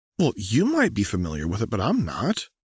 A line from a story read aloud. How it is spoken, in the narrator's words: Anna replied in a slightly annoyed tone